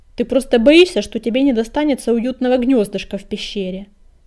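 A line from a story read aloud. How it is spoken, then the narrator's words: Grumbling. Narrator (Russian): проворчал Колченогий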